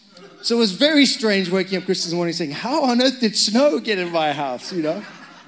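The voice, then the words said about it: Zimbabwean accent. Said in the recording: “I'm Zimbabwean. That's why my accent's strange.”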